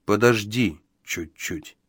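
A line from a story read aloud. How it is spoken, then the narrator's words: Soft. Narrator (Russian): мягко произнес он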